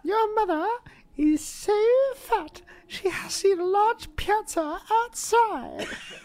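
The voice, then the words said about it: Posh little kid's accent. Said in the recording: “a very posh little kid's accent”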